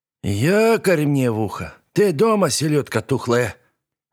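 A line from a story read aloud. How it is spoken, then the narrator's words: Booming hoarse smoker's voice. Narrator (Russian): От хриплого прокуренного голоса дрожали стекла и фарфоровые слоники на серванте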